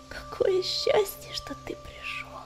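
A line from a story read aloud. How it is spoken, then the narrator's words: Whisper. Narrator (Russian): прошептала она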